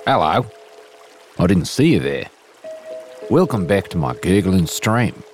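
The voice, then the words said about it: Inconsistent put-on Australian/New Zealand accent. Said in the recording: “with an at times passable, but mostly wildly inconsistent Australian / New Zealand accent”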